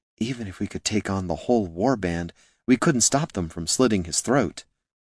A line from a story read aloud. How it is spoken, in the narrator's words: Katha leaned close and whispered in Gorm's ear